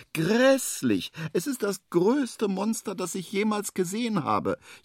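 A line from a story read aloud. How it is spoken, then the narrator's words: Trembling wail. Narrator (German): jammert es weiter und zittert am ganzen Leibe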